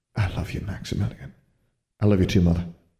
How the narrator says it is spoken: he mumbled in a rush under his breath, fearful that one of the other BMI students might hear him

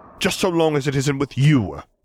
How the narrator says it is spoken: Piet snapped

